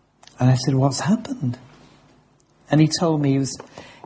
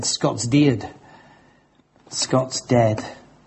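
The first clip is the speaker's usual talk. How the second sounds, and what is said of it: Broad Yorkshire accent. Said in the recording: “I'll tell you how he said it in broad Yorkshire accent”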